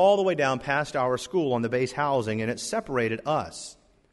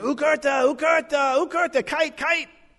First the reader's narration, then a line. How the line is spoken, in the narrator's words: smiling and yelling and pointing and shouting